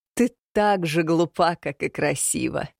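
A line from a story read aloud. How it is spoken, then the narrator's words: Laughing. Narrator (Russian): рассмеялась Роксана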